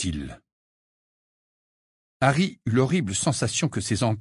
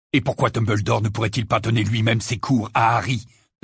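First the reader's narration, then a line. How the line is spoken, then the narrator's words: Aggressive question. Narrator (French): demanda Sirius d'un ton agressif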